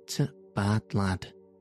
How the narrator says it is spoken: sighed Martha

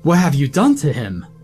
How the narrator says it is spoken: cried Abraham

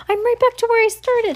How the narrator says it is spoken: Heidi whimpered

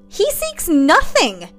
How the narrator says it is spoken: Eric yelled

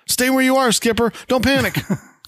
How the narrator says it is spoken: He yells out

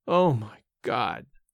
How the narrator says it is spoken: again, in his groaning voice

